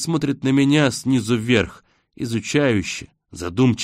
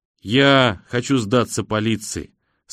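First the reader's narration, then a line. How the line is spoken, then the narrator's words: Calm. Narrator (Russian): спокойно произносит он наконец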